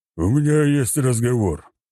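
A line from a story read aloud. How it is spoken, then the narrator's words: Deep bass voice. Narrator (Russian): пробасил Вышегор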